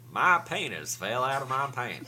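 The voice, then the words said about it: Weak Forrest Gump impression. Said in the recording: “That's not a very good Forrest Gump impression, but I do like that voice.”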